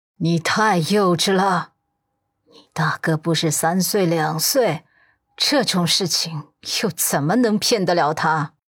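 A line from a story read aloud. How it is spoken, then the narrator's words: Cold, sneering. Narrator (Chinese): 陆家老太太……嘴角冷冷的勾起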